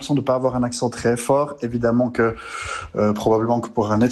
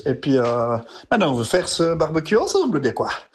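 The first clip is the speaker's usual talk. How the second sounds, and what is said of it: Exaggerated Swiss Fribourg French accent. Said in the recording (French): “Mon accent, il ressort évidemment ... le IE redevient IOS ... L'accent fribourgeois ... c'est presque comme l'accent vaudois”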